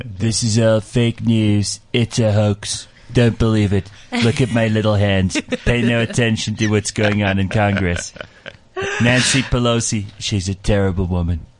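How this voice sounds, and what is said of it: Donald Trump impression. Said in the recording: “do your Trump accent for us ... you have to say it with a Trump accent.”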